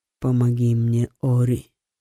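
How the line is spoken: Dry, cracked whisper. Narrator (Russian): прошептал он потрескавшимися пересохшими губами

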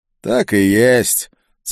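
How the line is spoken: Muffled through face covering. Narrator (Russian): цыган говорил глухо из-за плотной повязки на лице

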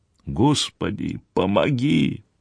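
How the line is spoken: Barely audible mutter. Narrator (Russian): едва слышно пробормотала

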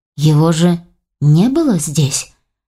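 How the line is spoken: Uncertain. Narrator (Russian): неуверенно заметил Войтых

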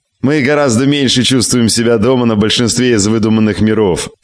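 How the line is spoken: Snorting. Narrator (Russian): фыркнул Мэдисон

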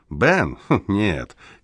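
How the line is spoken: Laughing. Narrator (Russian): Кеслер рассмеялся

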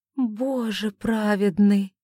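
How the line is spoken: Breathless female exhale. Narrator (Russian): выдохнула Оливия

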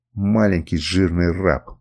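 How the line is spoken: Hissed through clenched teeth. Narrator (Russian): процедил сквозь зубы Гарольд

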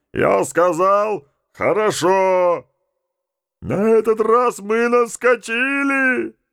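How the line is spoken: Yelling. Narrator (Russian): заорал Джакс

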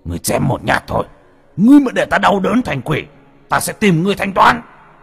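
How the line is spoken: Roaring. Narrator (Vietnamese): Lê Biệt đang quỳ lại gầm lên một tiếng

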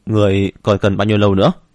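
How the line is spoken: Loud. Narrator (Vietnamese): Hắn lớn tiếng nói

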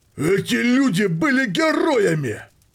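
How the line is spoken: Roared. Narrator (Russian): проревел

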